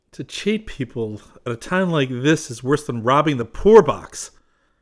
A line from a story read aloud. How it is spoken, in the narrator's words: cried Trent angrily